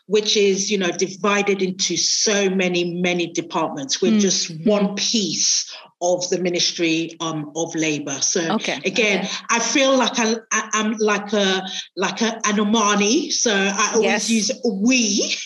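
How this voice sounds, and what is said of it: British accent. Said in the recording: “there is a British connection, right, with your accent”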